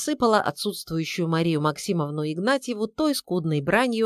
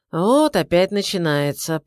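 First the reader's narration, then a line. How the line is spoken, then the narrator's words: Grumbled. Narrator (Russian): пробурчал Георгий Алексеевич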